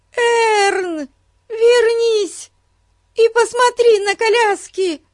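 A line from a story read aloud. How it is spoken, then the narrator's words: Shouting. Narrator (Russian): закричала Бетси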